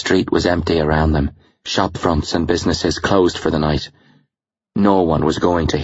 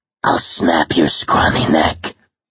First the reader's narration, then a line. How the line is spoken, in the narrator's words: hissed